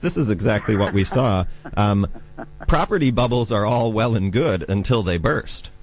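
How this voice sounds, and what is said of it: American accent. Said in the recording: “you can probably tell from my accent that I come from the United States”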